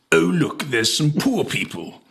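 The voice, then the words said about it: Bad Boris Johnson impression. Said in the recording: “Boris Johnson said the following, and I'll do the accent, and I don't apologise for how bad it is.”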